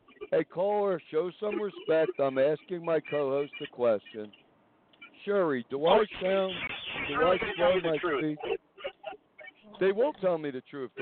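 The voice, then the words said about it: New York accent. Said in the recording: “you sound like a New Yorker.”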